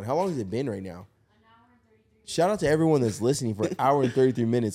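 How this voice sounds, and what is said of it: Tired, worn-out voice. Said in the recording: “I feel like my voice is gone.”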